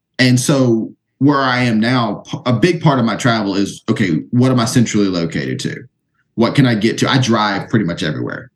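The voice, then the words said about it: Southern US accent, slightly Jersey-like. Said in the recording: “I live in the South. I don't know if you can tell by the accent. ... You know, a little bit. I know it sounds a little like Jersey here, but you know, I'm a Southern boy”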